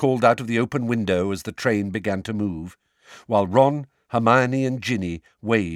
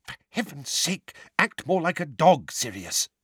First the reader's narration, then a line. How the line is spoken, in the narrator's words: Weasley hissing